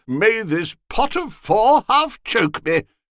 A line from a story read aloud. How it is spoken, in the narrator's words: cried Costello